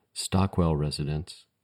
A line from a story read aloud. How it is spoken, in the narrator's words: in a hushed voice